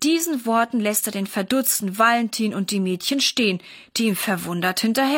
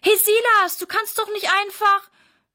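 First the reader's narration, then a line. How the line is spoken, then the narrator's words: Calling after someone. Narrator (German): ruft Sarah ihm hinterher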